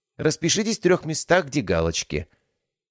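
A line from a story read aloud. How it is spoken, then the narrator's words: Falsely polite woman. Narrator (Russian): искусственно любезным голосом произнесла женщина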